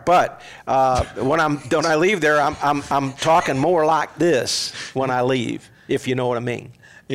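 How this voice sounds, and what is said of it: Poor put-on Southern US accent. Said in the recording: “deep south ... southern Mississippi ... that's not really a great accent, though. I mean, like, it's not a good version of it. ... It's really bad.”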